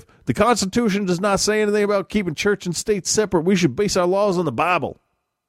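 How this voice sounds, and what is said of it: Bad put-on Southern accent, angry. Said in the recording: “this is going to turn into a shitty Southern accent pretty quick ... Angry conservative”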